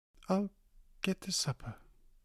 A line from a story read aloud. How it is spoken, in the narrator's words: she managed to whisper